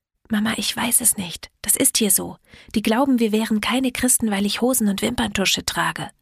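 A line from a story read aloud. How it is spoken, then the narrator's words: Whispered back. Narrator (German): Ich flüsterte zurück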